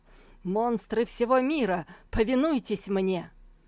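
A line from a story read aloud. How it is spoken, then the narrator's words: Loud furious shout. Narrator (Russian): Лицо его пылало от злобы, когда он зычно крикнул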